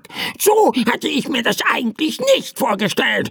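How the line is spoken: Angry bird croaking. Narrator (German): krächzte der Vogel verärgert

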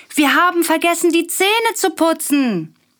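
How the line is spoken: Calling out. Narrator (German): ruft Willi

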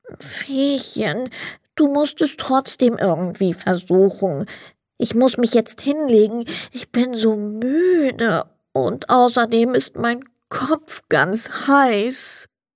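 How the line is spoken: Sad, dejected sandman. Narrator (German): Der Sandmann ließ den Kopf hängen und sagte traurig

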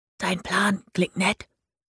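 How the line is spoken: Whisper. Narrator (German): flüsterte das Postamt

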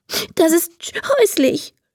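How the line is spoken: Sobbing. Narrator (German): schluchzt Emma

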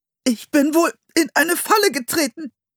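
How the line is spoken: Strained, pressed voice. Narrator (German): sagte er mit gepresster Stimme

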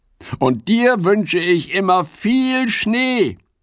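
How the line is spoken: Calling out. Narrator (German): ruft Fips

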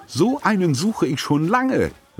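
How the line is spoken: Excited aunt. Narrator (German): rief Tante Edda begeistert

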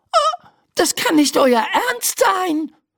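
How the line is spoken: Screaming. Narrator (German): schreit Laura

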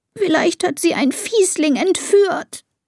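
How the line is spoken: Sobbing. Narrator (German): schluchzt Elisa

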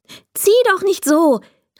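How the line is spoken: Calling out. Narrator (German): rief Oskar

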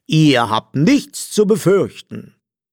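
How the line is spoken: Fake-friendly male call. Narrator (German): rief er mit verstellt freundlicher Stimme

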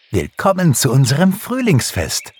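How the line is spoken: Called out. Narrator (German): rief Pixie

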